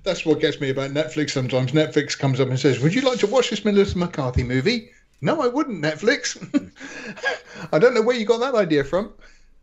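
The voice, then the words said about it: British accent. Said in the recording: “I am British. Listen to this accent. I speak the Queen's English.”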